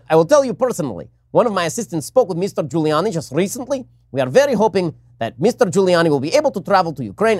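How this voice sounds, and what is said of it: Exaggerated Eastern European accent. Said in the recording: “my awful, awful Eastern European accent”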